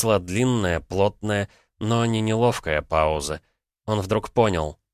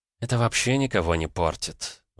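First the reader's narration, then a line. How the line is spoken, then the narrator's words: Sighing. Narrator (Russian): вздохнула Наталья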